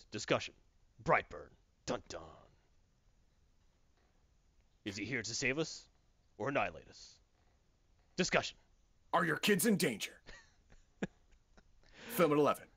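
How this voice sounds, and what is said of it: Dramatic news announcer voice. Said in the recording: “in my news announcer voice”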